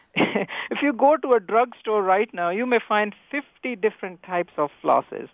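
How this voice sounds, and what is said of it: Slight Indian accent. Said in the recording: “when I came originally from India, You perhaps can get from my little accent there.”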